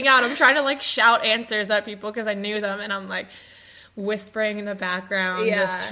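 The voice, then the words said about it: Raspy, strained voice. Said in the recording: “I still kind of sound a little bit raspy ... I'm just a little raspy”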